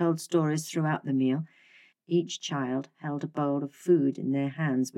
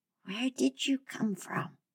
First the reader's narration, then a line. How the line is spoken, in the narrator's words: The little girl asked in a very small voice